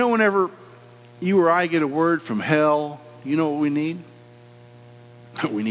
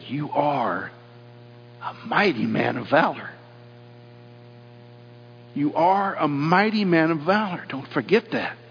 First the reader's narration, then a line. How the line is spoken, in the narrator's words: He whispered to Gideon, He said